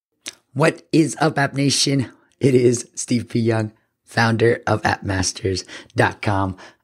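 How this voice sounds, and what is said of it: Hoarse, sick-sounding voice. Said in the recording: “I'm coming at you a little bit sick. ... My voice is a little bit gone”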